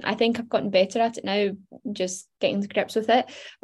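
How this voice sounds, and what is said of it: Glaswegian Scottish accent. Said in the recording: “we're Glaswegian, like ... It's not like we don't have an accent ... self-conscious of my accent ... everyone around me sounds very different”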